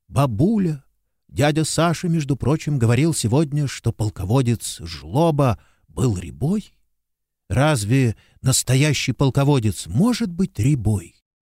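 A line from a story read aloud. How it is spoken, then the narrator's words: Fervent whisper in ear. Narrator (Russian): жарко зашептал ей на ухо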